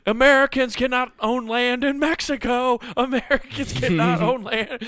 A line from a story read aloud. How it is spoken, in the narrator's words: Bill keeps uh, like distracting the guards and getting beat up by them by just yelling